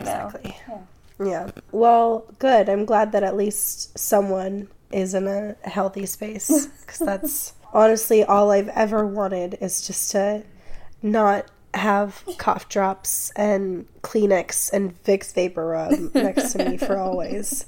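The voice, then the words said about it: Sick, poor-quality voice. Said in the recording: “I am not plagued by your sickness ... you guys hear poor quality”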